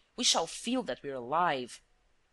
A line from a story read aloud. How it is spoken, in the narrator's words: exclaimed Wilson